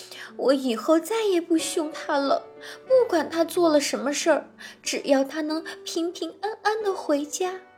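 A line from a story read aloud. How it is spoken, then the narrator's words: Crying mother donkey. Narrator (Chinese): 驴妈妈哭着说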